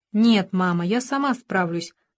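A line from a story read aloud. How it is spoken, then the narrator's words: Plain. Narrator (Russian): сказала она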